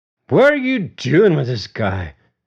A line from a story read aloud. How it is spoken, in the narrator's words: James slurred